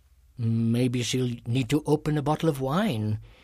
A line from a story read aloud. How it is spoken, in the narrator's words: he mumbled